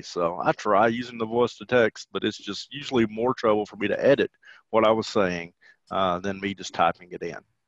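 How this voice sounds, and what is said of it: Southern US twang. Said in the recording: “those of you listening can obviously tell that I have a southern twang about me”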